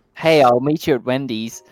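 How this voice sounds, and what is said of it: Fairly good put-on American accent. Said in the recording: “my renowned attempt at accents ... say something an American would say ... That's pretty good, actually.”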